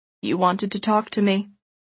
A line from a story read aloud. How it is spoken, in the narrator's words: he said flatly